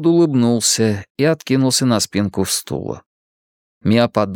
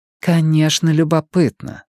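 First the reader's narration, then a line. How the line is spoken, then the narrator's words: Sighing. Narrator (Russian): вздохнула Мия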